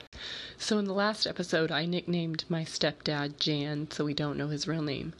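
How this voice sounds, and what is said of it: Vocal fry, sick-sounding voice. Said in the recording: “Sorry about the vocal fry. I'm still kinda sick when you're hearing this”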